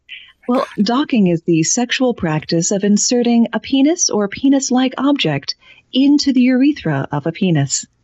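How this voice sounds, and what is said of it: NPR-style radio announcer voice. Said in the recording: “in my NPR voice ... the radio voice my mother trained us all to use”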